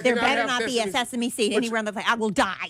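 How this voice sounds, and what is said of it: Boston accent. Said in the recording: “she said that with her Boston accent”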